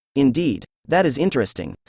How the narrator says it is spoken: said Holmes

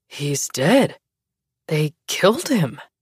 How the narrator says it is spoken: someone had already said in a disbelieving voice

